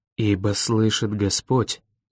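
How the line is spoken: Whispered. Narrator (Russian): прошептал он

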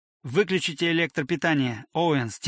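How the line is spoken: Quiet. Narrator (Russian): тихо сказал он

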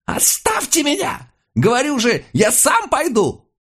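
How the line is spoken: Shouting while struggling. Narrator (Russian): он вырывался и кричал

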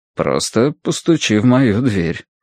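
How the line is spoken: Plain. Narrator (Russian): сказал он

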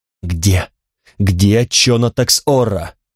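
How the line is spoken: Sudden cry. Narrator (Russian): Алана вскрикнула

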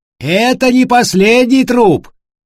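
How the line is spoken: Shouting after someone. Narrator (Russian): крикнул им вслед Матиас

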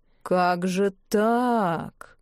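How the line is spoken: Upset drawl. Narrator (Russian): огорченно протянул Клавдий

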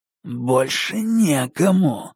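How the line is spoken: Hissing. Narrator (Russian): прошипел инспектор

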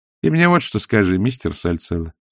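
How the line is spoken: Calm. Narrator (Russian): спокойно начала она

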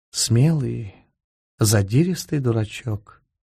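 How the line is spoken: Quiet. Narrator (Russian): сказала она все так же негромко

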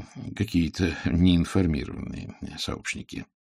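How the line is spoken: Muttered. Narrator (Russian): пробормотал Пуаро

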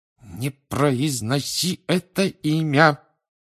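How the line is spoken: Hiss through teeth. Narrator (Russian): прошипел Рон сквозь зубы

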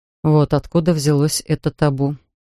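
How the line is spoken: Quiet. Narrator (Russian): Тихо проговорил Линкольн

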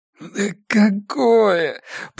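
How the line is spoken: Groaning. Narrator (Russian): простонал Илья

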